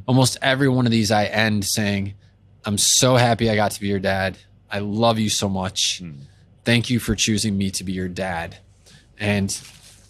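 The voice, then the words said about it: Emotional, choked-up voice. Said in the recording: “I'm getting emotional talking about it.”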